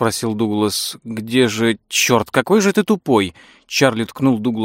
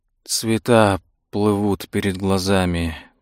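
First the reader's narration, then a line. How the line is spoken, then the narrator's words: Whisper. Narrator (Russian): прошептал полковник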